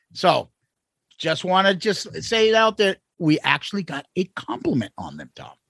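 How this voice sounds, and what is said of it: Boston accent. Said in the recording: “Maybe I am a sucker for Boston accents too ... we hear about it all the time, our Boston accents”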